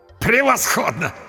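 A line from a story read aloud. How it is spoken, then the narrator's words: Hysterical laughter. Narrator (Russian): Истерично расхохотался папа Артур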